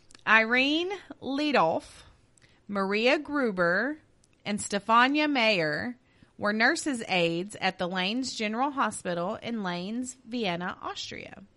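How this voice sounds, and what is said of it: Louisiana accent. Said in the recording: “Keep the Louisiana accent ... I can't help it. It's there.”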